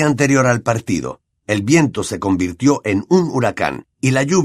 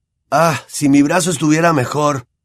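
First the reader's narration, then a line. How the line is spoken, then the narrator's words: Sighing. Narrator (Spanish): suspiraba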